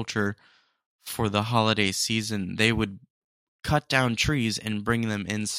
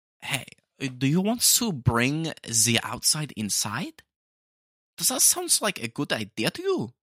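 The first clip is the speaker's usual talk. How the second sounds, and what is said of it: Deliberately poor German accent. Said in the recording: “It's a terrible German accent, but I'm trying my best.”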